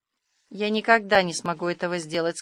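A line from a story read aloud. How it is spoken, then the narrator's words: Resolute and grim. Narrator (Russian): сказала Аня решительно и мрачно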